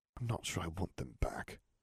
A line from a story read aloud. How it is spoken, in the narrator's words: Harry whispered